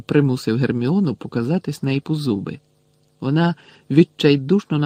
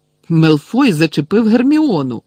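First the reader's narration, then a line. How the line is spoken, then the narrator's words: Exclaiming. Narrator (Ukrainian): вигукнув Рон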